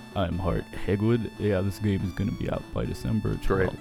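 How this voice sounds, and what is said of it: Impression of Hart Hagwood. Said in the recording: “my impersonation of him ... Hart Hagwood”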